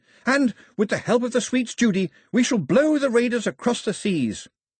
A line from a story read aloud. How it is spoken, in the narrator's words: Pilu was shouting